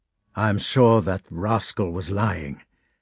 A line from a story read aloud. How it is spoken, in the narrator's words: said the Count